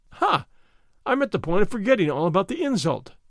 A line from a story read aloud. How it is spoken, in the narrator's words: he exclaimed